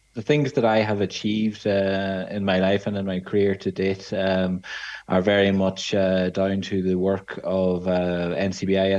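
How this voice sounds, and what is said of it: Irish Donegal accent. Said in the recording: “you hear from my accent, I'm actually from Donegal”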